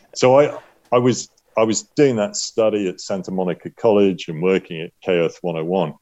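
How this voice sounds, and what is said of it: British accent. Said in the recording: “they liked my British accent”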